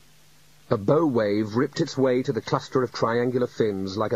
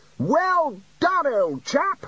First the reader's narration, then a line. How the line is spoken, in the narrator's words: shouted Ridcully across the water